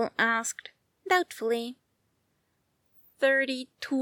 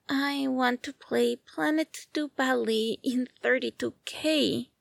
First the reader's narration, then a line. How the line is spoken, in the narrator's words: Xbox added mournfully